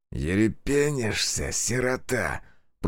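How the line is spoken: Hissed. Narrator (Russian): прошипел Саватеев

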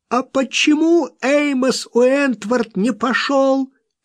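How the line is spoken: Hysterically angry shout. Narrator (Russian): крикнула она с истерической злостью

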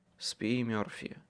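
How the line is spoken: Whisper. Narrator (Russian): прошептал я ей

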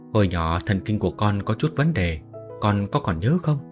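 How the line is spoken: Sighing. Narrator (Vietnamese): Trương Vân Hoa thở dài nói

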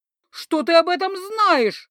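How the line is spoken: Indignant shriek. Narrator (Russian): возмущенно заверещал оборотень

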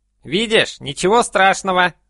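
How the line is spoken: Strained hoarse wheeze. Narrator (Russian): просипел Вещун, которому тоже пришлось несладко

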